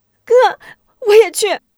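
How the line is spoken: Crying out. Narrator (Chinese): 韩晶追上去拉着吴忠哭喊着

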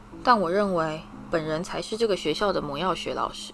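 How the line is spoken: Cold. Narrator (Chinese): 史内普冷冷地说

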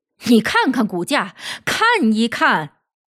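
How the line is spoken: Furious. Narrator (Chinese): 狂怒的说道

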